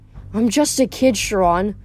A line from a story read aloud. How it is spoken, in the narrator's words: I said miserably